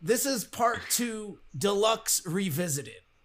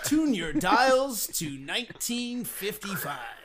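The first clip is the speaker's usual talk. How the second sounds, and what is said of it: Old-time radio announcer voice. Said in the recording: “old radio voice man”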